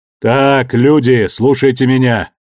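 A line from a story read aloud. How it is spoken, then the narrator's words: Bull barking over the din. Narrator (Russian): перекрывая гомон, рявкнул бык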